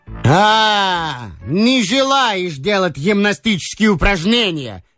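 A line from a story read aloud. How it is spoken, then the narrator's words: Yelling. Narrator (Russian): заорал унтер-офицер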